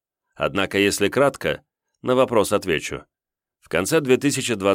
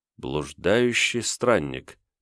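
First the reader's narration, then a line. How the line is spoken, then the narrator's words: Muttering. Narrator (Russian): пробормотал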